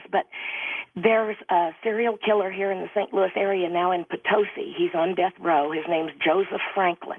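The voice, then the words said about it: Hoarse, strained voice. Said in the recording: “Excuse my voice. I've got laryngitis.”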